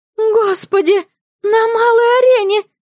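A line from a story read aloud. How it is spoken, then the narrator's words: Horrified loud cry. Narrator (Russian): С ужасом заставившим проходивших мимо людей обернуться, вскрикнула Юна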